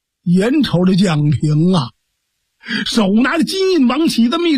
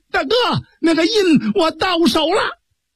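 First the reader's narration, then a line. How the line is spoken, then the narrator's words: Shouting. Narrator (Chinese): 蒋平大喊了一声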